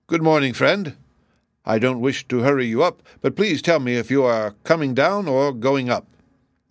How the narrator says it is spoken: he called out to it

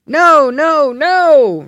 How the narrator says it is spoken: rose the universal shout

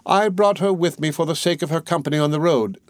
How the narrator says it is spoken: said she

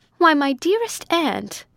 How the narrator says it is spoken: she cried

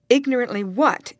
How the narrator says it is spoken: inquired Miss Halcombe sharply

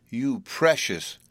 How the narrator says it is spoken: cried Evelyn

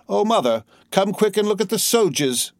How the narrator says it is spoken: One shouted in taunting mimicry

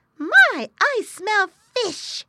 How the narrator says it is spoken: he cried, his eyes sparkling

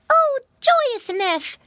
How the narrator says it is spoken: squealed Flop

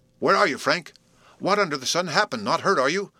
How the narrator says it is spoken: was what he was singing out, his voice trembling with eagerness and anxiety

